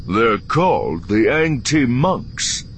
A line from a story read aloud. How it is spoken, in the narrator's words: David said, his tone a strange mixture of satisfaction and awe